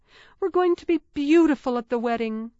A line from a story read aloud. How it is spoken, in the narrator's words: Clarissa exclaimed